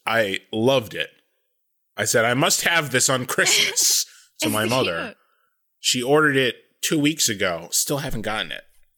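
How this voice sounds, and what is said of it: Croaky, frog-like voice. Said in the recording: “my voice sounds way bizarre today, like a frog. I sound like a frog.”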